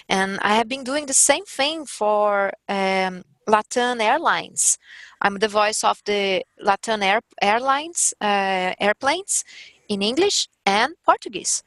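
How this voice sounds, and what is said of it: Strong Brazilian accent. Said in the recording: “a strong and Brazilian accent ... I have strong accent ... with a lot of accent, with my accent”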